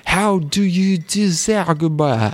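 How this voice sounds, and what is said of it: Mock Japanese-accented English. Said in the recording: “is that your Japanese impression? ... it's my Japanese impression of a Japanese person doing English because they're very bad at it.”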